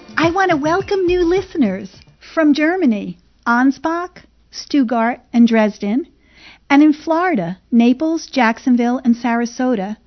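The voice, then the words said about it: New Jersey accent. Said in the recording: “my New Jersey twang or accent ... You have such an accent.”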